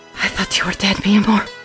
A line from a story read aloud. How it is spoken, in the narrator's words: she whispers